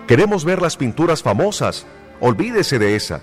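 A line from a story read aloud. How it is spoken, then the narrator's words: Shout from back of room. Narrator (Spanish): una voz del fondo de la habitación gritó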